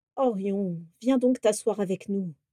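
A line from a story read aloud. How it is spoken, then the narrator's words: Sighed. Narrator (French): soupira finalement Vera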